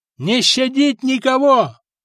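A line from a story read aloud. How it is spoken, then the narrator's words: Yelling. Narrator (Russian): орал Добрята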